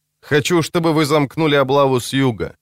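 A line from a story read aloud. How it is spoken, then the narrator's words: Plain. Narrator (Russian): сказал тогда Ловчий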